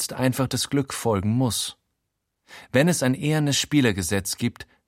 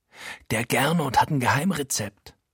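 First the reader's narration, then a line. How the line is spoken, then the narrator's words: Whispering. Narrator (German): flüstert Frankie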